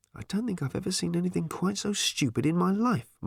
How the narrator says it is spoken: muttered Ford to himself

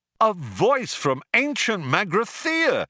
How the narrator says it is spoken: shouted Zaphod

